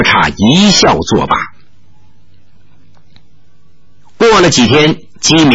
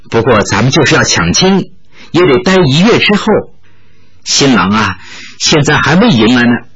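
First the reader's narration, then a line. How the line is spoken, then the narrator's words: Laughing. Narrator (Chinese): 玉罗刹笑道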